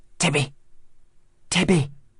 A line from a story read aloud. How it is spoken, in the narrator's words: whispered loudly up at the bedroom window